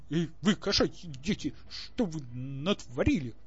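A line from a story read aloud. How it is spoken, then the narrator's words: Roaring while eating. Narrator (Russian): взревел Максимилиан, не отрываясь от миски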